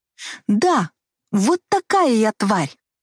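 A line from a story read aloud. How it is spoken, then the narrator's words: Exclaiming. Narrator (Russian): воскликнула я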